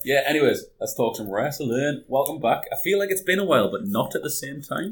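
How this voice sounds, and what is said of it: Hoarse, fading voice. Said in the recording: “I'm losing my voice.”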